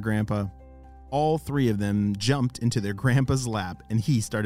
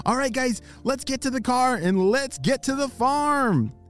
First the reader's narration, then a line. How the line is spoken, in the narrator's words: he shouted